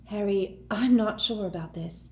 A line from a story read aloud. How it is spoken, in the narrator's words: breathed Hermione